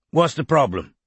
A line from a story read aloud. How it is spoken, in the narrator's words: Strike had asked roughly, his stump throbbing